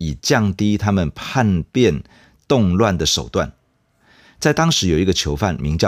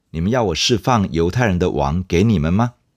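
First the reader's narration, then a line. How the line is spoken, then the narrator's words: Plain question. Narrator (Chinese): 比拉多这样问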